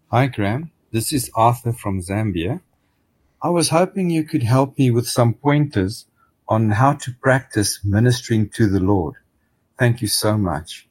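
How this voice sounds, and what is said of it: Pleasant foreign English accent. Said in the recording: “Oh, great accent. I want to borrow that accent.”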